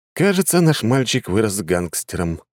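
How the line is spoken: Sighing. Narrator (Russian): вздохнул я

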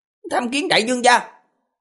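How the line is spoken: Loud, formal. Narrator (Vietnamese): lớn tiếng nói

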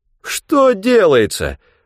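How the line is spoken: Mock-despairing exclamation. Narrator (Russian): в притворном отчаянии воскликнул Хегланд

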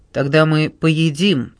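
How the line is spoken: Metallic, cold tone. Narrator (Russian): ответила Кэт металлическим тоном

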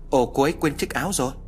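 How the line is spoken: Surprised exclamation. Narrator (Vietnamese): phát hiện chiếc áo khoác của cô nàng bỏ quên, Hoàng kêu lên

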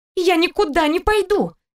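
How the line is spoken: Shrill squeal. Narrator (Russian): Взвизгнула она

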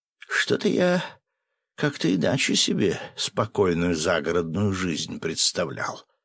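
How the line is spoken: Muttering. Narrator (Russian): пробормотал он

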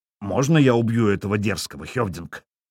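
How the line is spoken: Growling. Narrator (Russian): прорычал он

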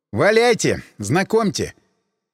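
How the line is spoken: Wry snort. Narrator (Russian): Иванов хмыкнул

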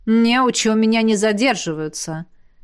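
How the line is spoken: Snorting. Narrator (Russian): хмыкнула ректор

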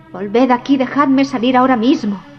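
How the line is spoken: Yelling. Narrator (Spanish): vociferaba Jack

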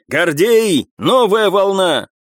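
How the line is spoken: Shouting. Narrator (Russian): прокричал он

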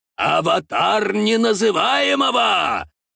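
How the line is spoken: Menacing, inspired. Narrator (Russian): Грозно так и воодушевленно сказал

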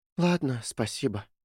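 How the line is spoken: Sighing. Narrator (Russian): вздохнула Кэти

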